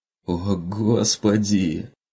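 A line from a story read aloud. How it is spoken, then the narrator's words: Groaned. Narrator (Russian): простонал тот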